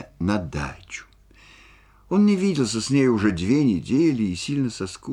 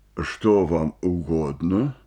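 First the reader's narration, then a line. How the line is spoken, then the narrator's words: Deep bass question. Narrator (Russian): спросил актер басом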